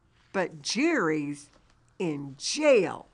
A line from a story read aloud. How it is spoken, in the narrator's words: Neely, angrily ... says